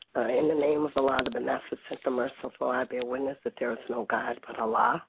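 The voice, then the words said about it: Voice affected by a cold. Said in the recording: “pardon my voice. I'm trying to get over this cold that I have.”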